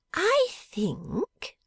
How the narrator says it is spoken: said Miss Jenny, with a silent laugh

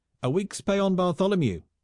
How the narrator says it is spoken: shouted another

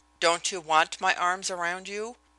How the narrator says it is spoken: he asked, and there was that in his voice

